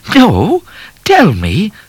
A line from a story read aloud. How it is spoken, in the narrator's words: said O'Grady, starting to laugh himself